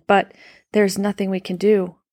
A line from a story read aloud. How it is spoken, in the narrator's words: said Samira's mother, her voice trembling